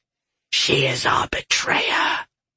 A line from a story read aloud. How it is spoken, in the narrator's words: Whisper hissed